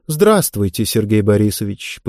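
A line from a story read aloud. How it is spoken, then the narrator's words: Dry businesslike reply. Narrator (Russian): по-деловому сухо ответила посетительница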